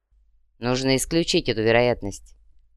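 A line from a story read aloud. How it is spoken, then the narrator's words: Calm reply. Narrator (Russian): спокойно ответил повелитель Сокольников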